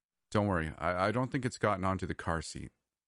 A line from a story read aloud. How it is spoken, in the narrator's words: I said calmly